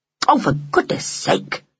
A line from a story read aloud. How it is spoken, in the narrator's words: said Hyacinth sharply